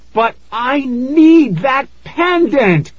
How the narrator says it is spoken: I wailed

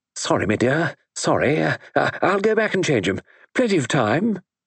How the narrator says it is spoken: Sir George said anxiously

